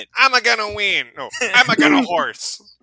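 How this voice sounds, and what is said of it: Waluigi cartoon character voice. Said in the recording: “Should I do a Waluigi impression? ... Is that the time for the Waluigi impression?”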